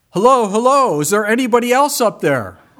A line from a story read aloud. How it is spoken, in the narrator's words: he yelled out